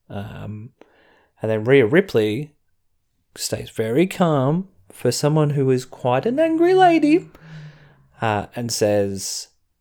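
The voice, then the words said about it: Australian accent. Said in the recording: “an Australian accent ... we don't sound as authoritative”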